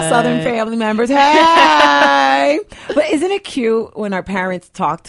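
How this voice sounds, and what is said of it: Usual voice. Nothing is said of it.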